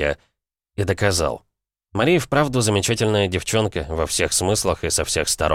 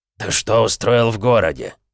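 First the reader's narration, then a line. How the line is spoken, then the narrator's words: Growled, old man. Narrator (Russian): прорычал на меня старик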